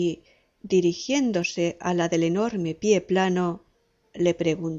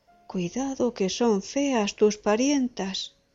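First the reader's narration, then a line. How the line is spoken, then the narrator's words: Exclaimed. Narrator (Spanish): exclamó el novio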